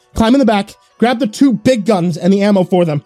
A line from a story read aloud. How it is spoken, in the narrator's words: I yelled, trying to sound as confident in my plan as I could